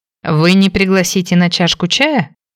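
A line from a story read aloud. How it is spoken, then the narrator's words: Surprised, mocking question. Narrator (Russian): удивленно спросил брюнет, насмешливо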